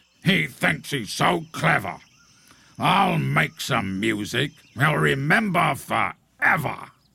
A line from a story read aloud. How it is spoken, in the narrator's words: snorted